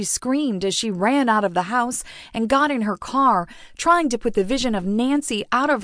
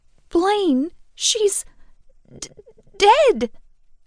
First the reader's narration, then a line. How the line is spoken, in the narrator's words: Kat stuttered, her voice shaking with emotion